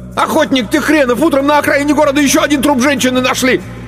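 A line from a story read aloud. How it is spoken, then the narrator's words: Yelling. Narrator (Russian): Мишка и заорал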